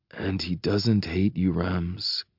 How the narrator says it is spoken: Cassian murmurs, quiet but seething

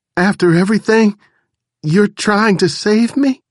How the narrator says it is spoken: choked out

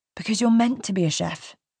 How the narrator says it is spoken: he says

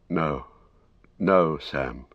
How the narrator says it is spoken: he said sadly

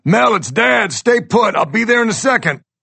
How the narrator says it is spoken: I yell out

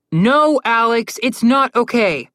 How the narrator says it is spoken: Connor yelled

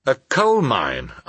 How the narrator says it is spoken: I exclaimed

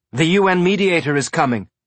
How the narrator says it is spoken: they shouted to each other

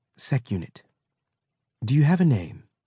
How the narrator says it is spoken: Mensa said quietly

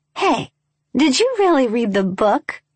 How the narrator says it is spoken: Tate asked over the laughing, so loud we heard it at the tip-top of the stairs

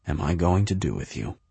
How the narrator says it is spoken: he whispers

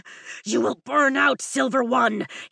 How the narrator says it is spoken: he growls

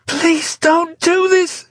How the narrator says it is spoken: she began to beg desperately, terror making her nauseous

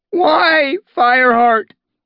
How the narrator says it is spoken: Cloudtail wailed

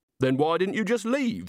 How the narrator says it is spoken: snapped Agnes

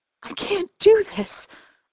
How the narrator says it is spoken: I sputter

